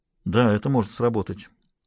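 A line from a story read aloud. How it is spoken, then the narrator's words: Mutter. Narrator (Russian): пробормотал он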